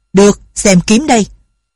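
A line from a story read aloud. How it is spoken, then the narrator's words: Heavy-breathing shout. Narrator (Vietnamese): Bà thở mạnh quát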